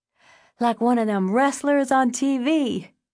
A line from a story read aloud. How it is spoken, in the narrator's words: Davon said, gasping for breath